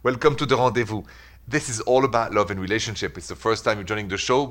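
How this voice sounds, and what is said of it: French accent. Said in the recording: “The accent is French, obviously, straight from Paris.”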